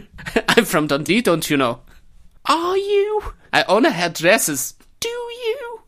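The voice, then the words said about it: Scottish woman with German accent. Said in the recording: “she had a German accent as well ... there's this Scottish woman with a German accent”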